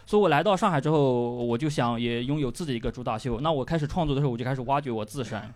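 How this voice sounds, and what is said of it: Rustic Yunnan-accented Mandarin. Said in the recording (Chinese): “云南，尤其是他的口音 ... 特别容易被人骗他这个口音 ... 质朴了，这个口音”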